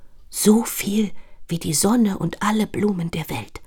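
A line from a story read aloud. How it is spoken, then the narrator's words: Whisper. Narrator (German): flüstert Petunia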